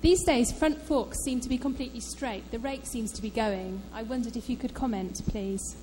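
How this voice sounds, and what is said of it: Speaks with a noticeable accent. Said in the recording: “Your accent's great”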